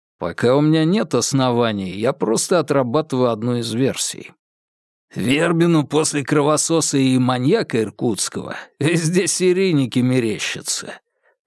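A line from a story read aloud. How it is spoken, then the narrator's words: Skeptical snort. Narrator (Russian): хмыкнул небритый Захаров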